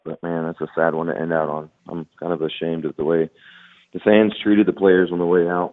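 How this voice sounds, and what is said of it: Hoarse, worn-out voice. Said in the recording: “as you can tell, my voice is pretty much shot”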